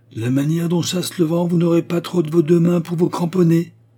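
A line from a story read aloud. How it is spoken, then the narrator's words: Shouting. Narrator (French): cria-t-il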